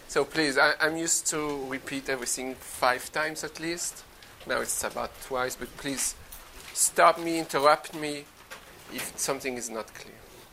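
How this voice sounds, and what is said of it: Speaks with a foreign accent. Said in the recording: “you are used to my accent?”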